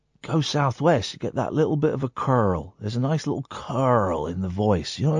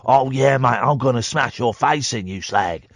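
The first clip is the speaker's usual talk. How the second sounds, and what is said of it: Put-on London southeast English accent. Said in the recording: “The London and southeast accent is boring, right? It's boring.”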